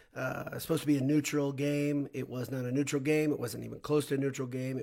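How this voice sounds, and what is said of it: Strained voice, still recovering. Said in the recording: “As you can hear, my voice is still recovering from yesterday's big, fun, just enjoyable, silly, wacky victory”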